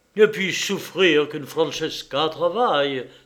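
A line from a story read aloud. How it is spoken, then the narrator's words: Exclaiming. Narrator (French): s'écria-t-il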